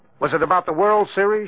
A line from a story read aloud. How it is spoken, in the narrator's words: she asked, as though trying desperately hard to prompt him